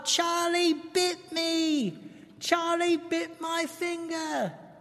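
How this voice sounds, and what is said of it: Yelled British toddler accent. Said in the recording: “yells in his British accent ... Was that a good impression? ... That was really good, actually.”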